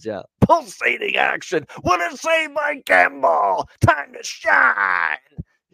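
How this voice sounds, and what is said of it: Impression of announcer Jack Michaels. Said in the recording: “I love doing that voice. That's exactly how he sounds ... that's Jack Michaels”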